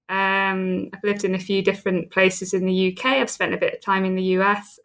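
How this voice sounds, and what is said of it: British southern English accent. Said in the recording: “you can tell from the accent, I'm a Brit. I'm from the south coast of England, from Southampton.”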